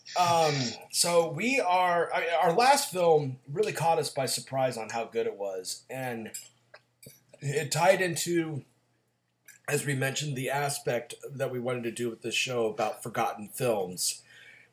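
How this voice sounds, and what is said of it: Raspy voice. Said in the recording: “raspy host ... I'm getting over a cold, so I'm sorry about the raspy voice”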